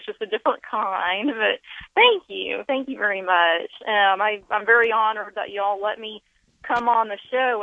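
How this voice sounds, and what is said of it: Speaks with a noticeable regional accent. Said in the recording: “your accent is music to my ears”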